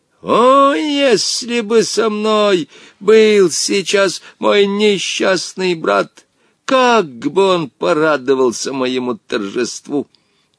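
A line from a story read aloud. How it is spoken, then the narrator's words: Gloating shout. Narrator (Russian): Омар Юсуф, злорадно ... выкрикнул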